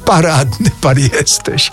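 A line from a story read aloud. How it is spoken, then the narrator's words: Laughing. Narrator (Polish): roześmiał się Mraczewski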